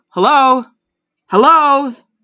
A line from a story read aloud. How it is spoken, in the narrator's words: Bob shouted a few